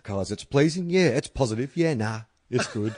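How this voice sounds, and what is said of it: Imitates another person's voice. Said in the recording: “That's my Richo impression.”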